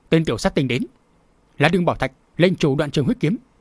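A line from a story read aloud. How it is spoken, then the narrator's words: Chorus of shouts. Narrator (Vietnamese): Một loạt tiếng quát vang lên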